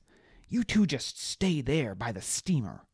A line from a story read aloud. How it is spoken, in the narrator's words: shouted